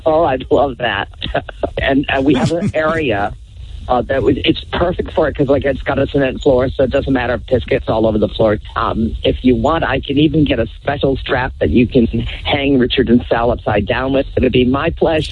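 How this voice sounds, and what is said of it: Poor Howard Stern impression. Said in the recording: “That is a terrible Howard Stern impression.”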